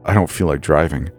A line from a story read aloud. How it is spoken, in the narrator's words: I mumbled to myself